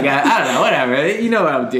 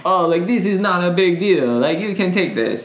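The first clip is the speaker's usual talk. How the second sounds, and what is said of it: Put-on Israeli accent. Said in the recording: “I was doing the Israeli accent”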